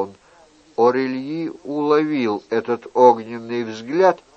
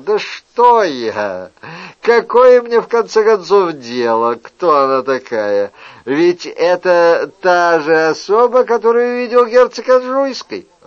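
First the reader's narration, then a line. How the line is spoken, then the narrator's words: Laughing speech. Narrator (Russian): Он рассмеялся и сказал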